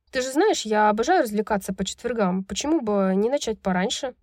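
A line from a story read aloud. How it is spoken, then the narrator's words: Forced casual tone. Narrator (Russian): Самым непринужденным тоном, на какой она была сейчас способна, Брайс ответила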